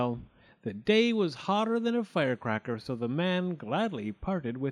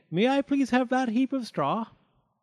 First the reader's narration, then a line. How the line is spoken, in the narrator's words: piped the pig